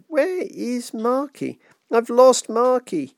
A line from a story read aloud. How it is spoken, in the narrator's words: let out a wail that seemed to slide like a knife down Miss Merivale's backbone, cutting her in two